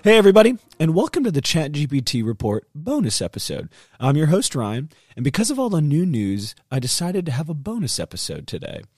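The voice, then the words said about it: Rough, hoarse sick voice. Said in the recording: “I was sick over the weekend, so my voice is a little rough, and then it went ahead and lost it”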